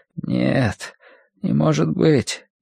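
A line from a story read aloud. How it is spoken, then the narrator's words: Frowning mumble. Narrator (Russian): нахмурившись, пробормотал он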